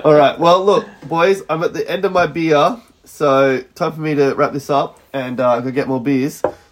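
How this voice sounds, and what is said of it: Hoarse voice. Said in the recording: “I'll be less hoarse.”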